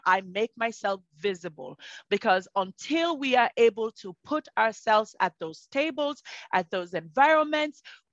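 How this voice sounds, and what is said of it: Speaks with a non-native accent. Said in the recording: “my accent”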